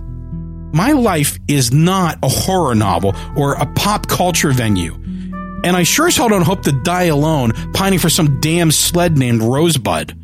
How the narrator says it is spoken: I yelled

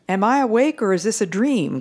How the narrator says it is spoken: cried the prominent man

